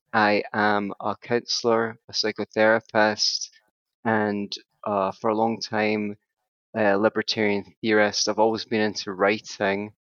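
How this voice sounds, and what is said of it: Scottish accent. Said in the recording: “I'm from Scotland, as you may be able to hear from my accent.”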